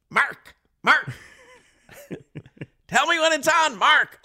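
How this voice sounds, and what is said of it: Put-on hard Chicago accent. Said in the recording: “That real hard Chicago accent.”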